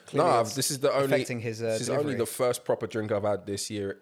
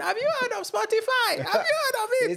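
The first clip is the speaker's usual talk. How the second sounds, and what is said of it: High-pitched helium-like voice. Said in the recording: “I did that voice. It's actually kind of hurt my throat. ... Helium voice.”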